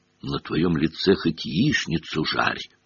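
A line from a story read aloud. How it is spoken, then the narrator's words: Whisper. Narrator (Russian): шепнул Рон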